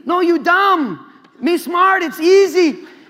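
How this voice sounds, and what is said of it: Attempted Indian accent. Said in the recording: “I don't know if that's an Indian accent, but that's all I got.”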